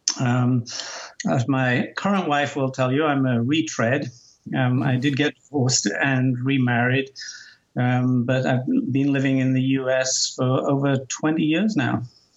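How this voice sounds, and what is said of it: Faded Geordie English accent. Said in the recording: “I can definitely hear some Geordie ... I can hear, some twang there ... you lost a fair bit of your accent. So this is actually a mongrel version of what you used to have.”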